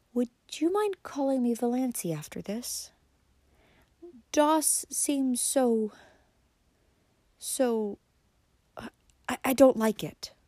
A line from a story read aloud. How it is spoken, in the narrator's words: said timidly